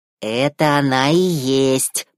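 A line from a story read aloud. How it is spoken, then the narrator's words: Hiss. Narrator (Russian): прошипел Себастьян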